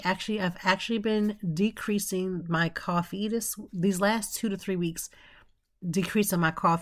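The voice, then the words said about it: Slightly nasal, congested voice. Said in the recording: “I sound a little nasally. I think I'm getting a little cold.”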